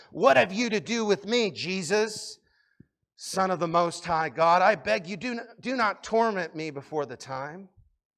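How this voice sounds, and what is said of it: Demon character voice. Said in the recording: “That's my demon voice.”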